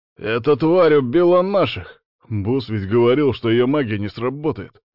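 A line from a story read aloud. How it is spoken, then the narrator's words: Attackers shouting out. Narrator (Russian): выкрикнули нападавшие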